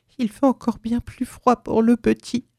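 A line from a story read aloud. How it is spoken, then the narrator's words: Old woman moaning, tearful. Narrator (French): gémit la vieille en fondant à nouveau en larmes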